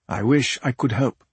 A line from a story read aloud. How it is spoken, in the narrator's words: Juntasa said